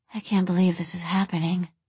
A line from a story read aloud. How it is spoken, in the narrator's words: Taylor murmured